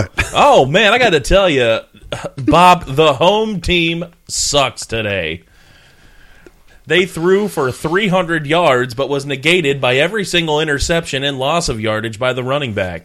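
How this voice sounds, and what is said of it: Mock sports broadcaster voice. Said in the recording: “Our impersonation of a Browns broadcast.”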